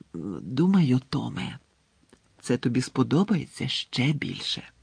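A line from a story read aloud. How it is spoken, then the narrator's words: Whispered. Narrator (Ukrainian): прошепотіла вона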